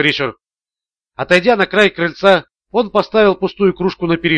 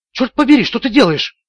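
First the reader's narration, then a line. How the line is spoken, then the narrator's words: Exclamation. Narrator (Russian): воскликнула Харпер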